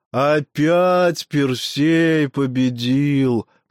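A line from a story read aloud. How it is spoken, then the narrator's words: Drawling. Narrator (Russian): протянул кто-то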